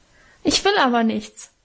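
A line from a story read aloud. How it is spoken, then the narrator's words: Sobbing. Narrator (German): schluchzte ich los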